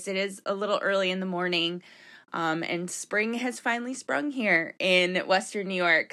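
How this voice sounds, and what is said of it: Slightly rough, affected voice. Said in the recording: “excuse me, my voice is, I don't know what's going on with my voice ... my allergies are a little, you know, flaring up a little. So excuse my voice.”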